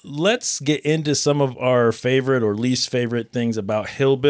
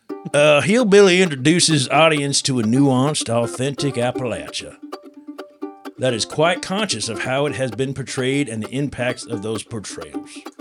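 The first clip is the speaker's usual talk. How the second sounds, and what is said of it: Put-on Kentucky accent. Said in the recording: “Allow me to do some code switching, which was a word they used about changing your accent while I read this ... does that sound Kentucky?”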